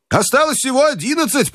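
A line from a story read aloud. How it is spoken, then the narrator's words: Shouted. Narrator (Russian): прокричал Джо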